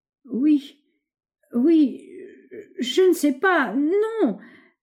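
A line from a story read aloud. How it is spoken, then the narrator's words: Stammering, straining to remember. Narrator (French): bégayait-il comme un homme qui fait un incroyable effort de mémoire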